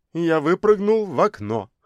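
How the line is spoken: Laughing. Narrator (Russian): рассмеялся профессор

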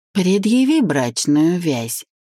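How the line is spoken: Mocking. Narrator (Russian): насмешливо ответил блондин

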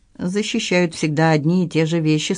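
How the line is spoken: Calm objection. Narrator (Russian): спокойно возразил Винсан

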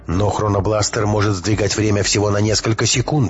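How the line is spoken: Shouting. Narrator (Russian): крикнул Матвей

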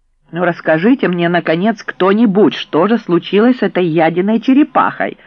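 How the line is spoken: Insistent demanding. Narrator (Russian): домогалась Тереза

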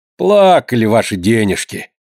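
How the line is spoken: Grumbling from hallway. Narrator (Russian): ворчала в коридоре Вероника

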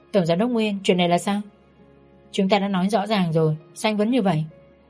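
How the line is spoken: Cool, flat voice. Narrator (Vietnamese): Tôi nói với giọng lành nhạt

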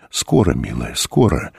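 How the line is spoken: Sad grandfather's voice. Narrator (Russian): Голос деда звучал почему-то грустно

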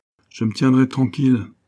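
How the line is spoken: Plain. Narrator (French): dit-il

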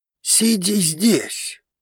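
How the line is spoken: Hiss again. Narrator (Russian): вновь зашипел он

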